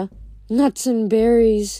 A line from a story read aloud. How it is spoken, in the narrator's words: Grover said dreamily